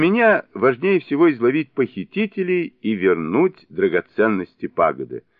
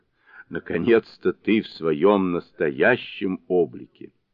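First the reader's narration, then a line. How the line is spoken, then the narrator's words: Stern question. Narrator (Russian): строгим тоном спросил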